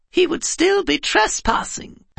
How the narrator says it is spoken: piped a little voice

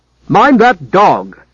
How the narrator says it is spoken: snapped the head clerk

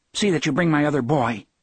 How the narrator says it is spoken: she said sharply

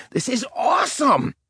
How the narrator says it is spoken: he shouted

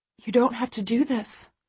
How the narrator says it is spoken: I whisper back

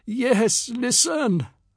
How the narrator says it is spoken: my grandfather said, his voice a weak imitation of his old booming tones

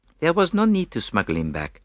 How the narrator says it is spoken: replied Poirot dryly

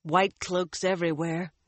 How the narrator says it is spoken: Nynaeve sighed

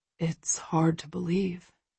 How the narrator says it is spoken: he whispers, and for the first time I hear wonder in his voice

